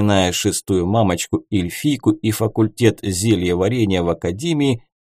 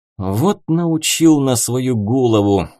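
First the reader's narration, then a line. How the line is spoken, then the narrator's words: Displeased grumbling. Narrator (Russian): недовольно проворчал я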